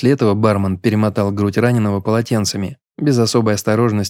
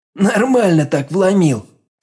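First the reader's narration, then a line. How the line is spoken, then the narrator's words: Laughing through tears. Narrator (Russian): сквозь слезы пояснил приступ веселья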